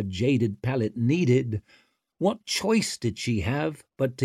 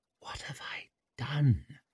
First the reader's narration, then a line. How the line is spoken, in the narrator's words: She whispered